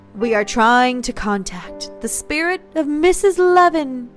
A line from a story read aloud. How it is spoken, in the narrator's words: Catherine said in a faux medium voice